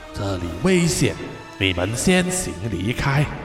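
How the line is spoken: Quiet, hushed. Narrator (Chinese): 土地公小声的对他说

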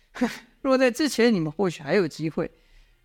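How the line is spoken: Wild laughter. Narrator (Chinese): 殷万青狂笑道

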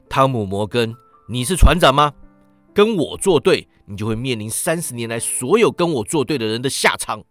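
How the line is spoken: Roaring. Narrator (Chinese): 席尔法吼道

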